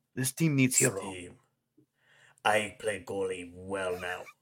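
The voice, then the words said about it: Put-on Russian Batman voice. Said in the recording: “How do I do a Russian Batman accent?”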